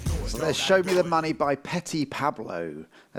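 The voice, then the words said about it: BBC radio presenter voice. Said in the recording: “my BBC Radio voice coming out there ... BBC Radio 2”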